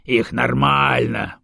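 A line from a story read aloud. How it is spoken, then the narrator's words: Grumbling. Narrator (Russian): пробурчал Бедокур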